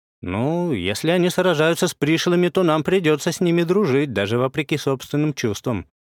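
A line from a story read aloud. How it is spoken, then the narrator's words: Philosophical, muffled chuckle. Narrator (Russian): философски изрёк я, приглушенно хмыкнув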